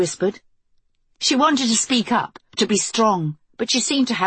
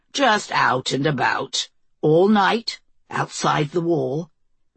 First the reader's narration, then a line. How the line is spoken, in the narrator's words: Greg repeated smoothly